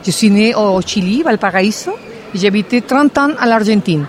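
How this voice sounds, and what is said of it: South American accent speaking French. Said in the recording (French): “Mon accent, c'est de l'Amérique du Sud”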